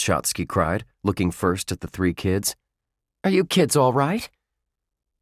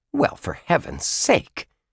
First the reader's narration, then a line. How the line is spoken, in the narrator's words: Miss Shotsky exclaimed